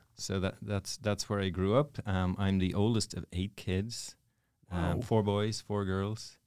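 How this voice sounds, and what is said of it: Irish accent. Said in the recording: “where'd the accent come from? ... I'm from Dublin, Ireland. ... Real Ireland. Yes. This is not an act.”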